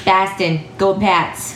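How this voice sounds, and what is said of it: Put-on Boston accent. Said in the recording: “did you like my accent? ... it was fantastic.”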